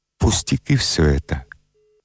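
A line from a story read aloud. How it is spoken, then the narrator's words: Quiet and serious. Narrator (Russian): тихо и серьезно сказал Тиунов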